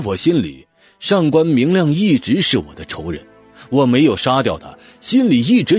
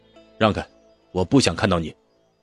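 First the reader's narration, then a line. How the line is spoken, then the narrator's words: Cold. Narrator (Chinese): 我冷冷地说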